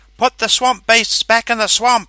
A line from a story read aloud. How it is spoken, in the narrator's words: cried